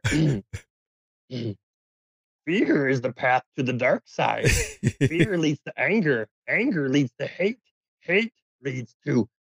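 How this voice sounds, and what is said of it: Yoda character voice impression. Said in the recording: “Let me try my best Yoda here.”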